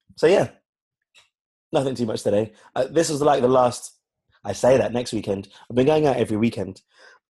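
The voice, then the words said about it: Hoarse, rough voice. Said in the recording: “my voice hasn't really recovered ... my throat is sore ... I can't hit those notes like I used to”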